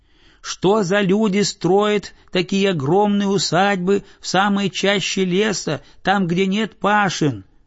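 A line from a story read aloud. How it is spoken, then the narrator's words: Shouting boy. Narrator (Russian): закричал мальчик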